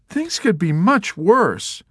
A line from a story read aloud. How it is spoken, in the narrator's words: she cried